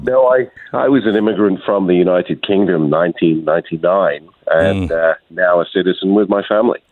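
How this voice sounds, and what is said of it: British accent, not Texan. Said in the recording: “accent does not sound Texan”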